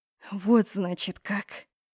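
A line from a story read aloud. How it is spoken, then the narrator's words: Hiss. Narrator (Russian): прошипела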